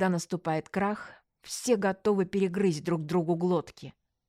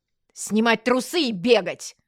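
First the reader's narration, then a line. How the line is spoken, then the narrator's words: Barked command. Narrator (Russian): рявкнула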